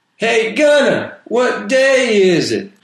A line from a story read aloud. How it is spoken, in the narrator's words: One of the other prisoners yelled at him